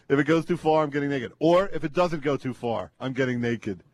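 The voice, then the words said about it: Mocking impression of co-host. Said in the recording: “That's my impression of you.”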